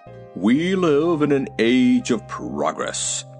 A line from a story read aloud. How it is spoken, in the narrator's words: announced Professor Wogglebug pompously